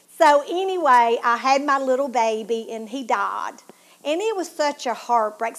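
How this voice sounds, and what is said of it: Southern Tennessee accent. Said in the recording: “my southern accent ... I'm from Tennessee, but people still made fun of my accent”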